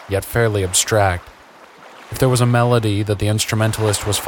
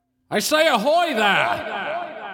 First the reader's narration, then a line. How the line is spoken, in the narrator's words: the man shouted